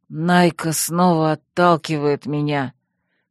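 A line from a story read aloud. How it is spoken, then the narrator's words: Grumbling. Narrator (Russian): проворчал он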